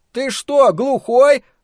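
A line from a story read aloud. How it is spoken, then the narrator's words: Indignant shout. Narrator (Russian): возмущенно крикнул Том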